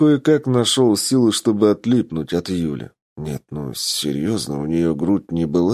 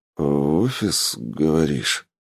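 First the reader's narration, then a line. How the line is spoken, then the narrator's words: Drawling. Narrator (Russian): протянул я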